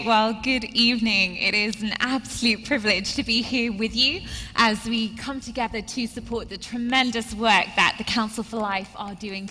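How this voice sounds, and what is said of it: Non-Southern, foreign-sounding accent. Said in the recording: “As you can tell by the accent, I'm definitely not from around here. I'm working on my southern”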